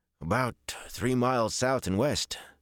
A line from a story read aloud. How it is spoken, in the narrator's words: Dennell replied in a sour voice